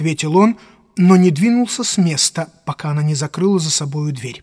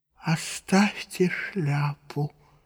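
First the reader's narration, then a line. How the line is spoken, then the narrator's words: Stranger's strained voice. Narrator (Russian): сказал приезжий сдавленным голосом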